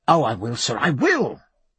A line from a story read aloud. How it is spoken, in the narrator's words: cried Babington